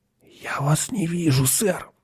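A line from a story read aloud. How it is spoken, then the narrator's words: Whispered. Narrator (Russian): прошептал он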